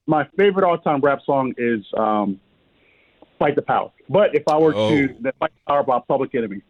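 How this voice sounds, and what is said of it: Brooklyn New York accent. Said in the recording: “I was born in Brooklyn ... nestled in New York ... we hear the accent”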